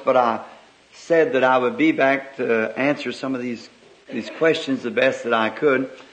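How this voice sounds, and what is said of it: Slightly hoarse voice. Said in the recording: “I'm just a little hoarse”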